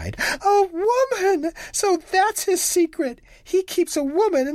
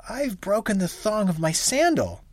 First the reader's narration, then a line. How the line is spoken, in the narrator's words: says he